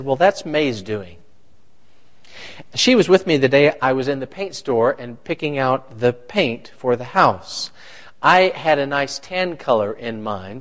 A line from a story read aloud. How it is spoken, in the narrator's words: said